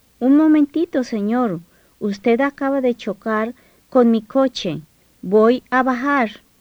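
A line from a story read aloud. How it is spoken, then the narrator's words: Exclamation. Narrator (Spanish): Isabel exclamó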